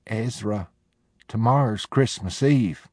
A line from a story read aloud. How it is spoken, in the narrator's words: She said weakly